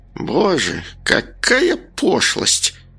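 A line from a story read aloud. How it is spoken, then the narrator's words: Groaning woman. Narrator (Russian): простонала странница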